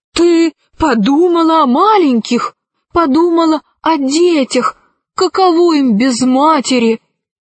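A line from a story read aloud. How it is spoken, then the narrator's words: Desperate exclamation. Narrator (Russian): Орсекки отчаянно воскликнул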